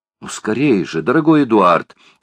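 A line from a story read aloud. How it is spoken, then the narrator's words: Exclamation. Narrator (Russian): воскликнула леди Элен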